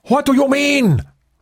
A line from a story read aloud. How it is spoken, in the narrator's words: Poe shouted in anger